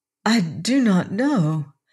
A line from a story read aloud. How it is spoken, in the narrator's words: she said, faltering a little